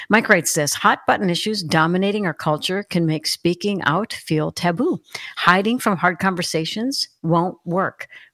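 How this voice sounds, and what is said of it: Sick, slightly rough voice. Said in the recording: “excuse my voice, a little under the weather here today”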